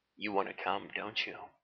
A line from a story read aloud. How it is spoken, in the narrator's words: He asked in a kept calm tone